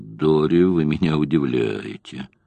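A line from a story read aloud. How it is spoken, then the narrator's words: Tense mutter. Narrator (Russian): он напрягся и пробормотал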